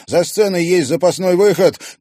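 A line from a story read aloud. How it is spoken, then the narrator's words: Shouted. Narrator (Russian): крикнул Клим Поликутин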